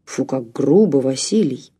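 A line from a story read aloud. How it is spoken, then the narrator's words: Good-natured deep voice. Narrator (Russian): пробасил второй мужчина, впрочем, беззлобно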